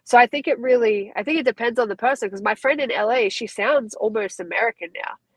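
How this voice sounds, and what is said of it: Australian accent. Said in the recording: “he thought my Aussie accent was stronger than his”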